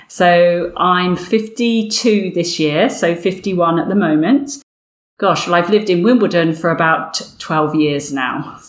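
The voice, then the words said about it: English Berkshire Windsor accent. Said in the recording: “What is that lovely accent you have? ... this accent, I guess, is a Berkshire, a Windsor accent, now coming South London way.”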